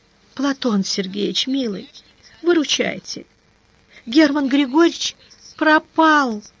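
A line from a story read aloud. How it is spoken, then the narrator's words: Sobbing, woman. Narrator (Russian): Разрыдавшись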